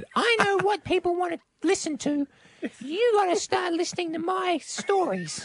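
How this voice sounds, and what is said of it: Man imitating his wife's voice. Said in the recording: “your impersonation ... That was one of the best impersonations ... That was just me doing her voice.”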